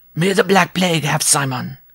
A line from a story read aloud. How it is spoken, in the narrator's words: the dwarf cried